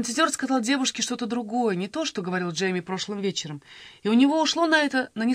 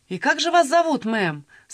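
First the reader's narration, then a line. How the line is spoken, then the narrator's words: Loud question. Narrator (Russian): спросил он громко, чтобы всем было слышно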